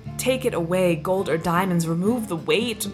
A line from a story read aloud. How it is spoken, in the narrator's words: groaned the old man